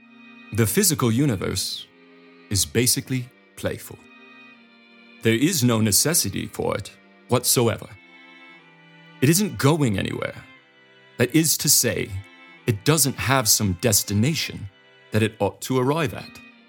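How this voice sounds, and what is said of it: Poor put-on English accent. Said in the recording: “just how poor of an attempt this English accent will be”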